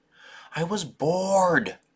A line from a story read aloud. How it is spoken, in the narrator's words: Rolf moaned